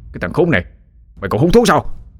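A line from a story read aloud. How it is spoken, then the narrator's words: Irritated shout. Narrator (Vietnamese): Tên giang hồ lại bực tức quát lên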